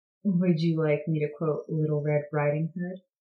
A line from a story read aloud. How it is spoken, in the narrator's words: Maya chuckled